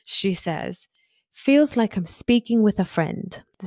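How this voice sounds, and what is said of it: Poor attempt at British accent. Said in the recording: “I'm going to read it in my best British accent ... This is really terrible.”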